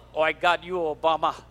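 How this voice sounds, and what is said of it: Poor put-on Russian accent. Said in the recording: “That was my worst Russian accent.”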